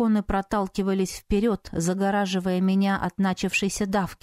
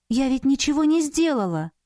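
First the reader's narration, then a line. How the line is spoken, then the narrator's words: Frightened. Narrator (Russian): Испуганно сказала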